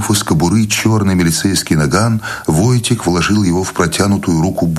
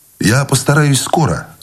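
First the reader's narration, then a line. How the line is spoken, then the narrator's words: Cheerful. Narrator (Russian): бодро сказал Войтик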